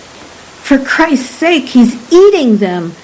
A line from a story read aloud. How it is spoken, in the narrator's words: Murano cried